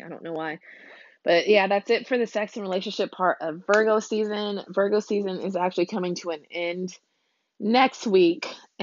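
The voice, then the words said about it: Froggy, hoarse voice. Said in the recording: “my voice is kind of froggy”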